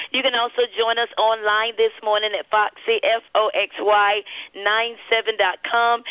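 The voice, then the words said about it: Slightly raspy voice. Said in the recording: “My voice is a little raspy ... give me a little voice rest”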